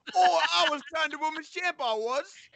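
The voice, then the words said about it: Put-on Cockney accent. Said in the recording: “the Cockney accent”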